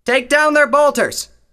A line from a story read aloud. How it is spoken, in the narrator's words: Tailwind shouted over the clamor of battle